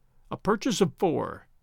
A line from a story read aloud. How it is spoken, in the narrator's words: he murmured aloud